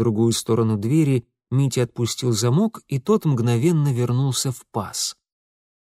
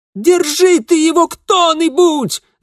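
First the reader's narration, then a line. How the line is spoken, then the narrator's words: Muffled yell from inside. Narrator (Russian): завопил изнутри Ингвар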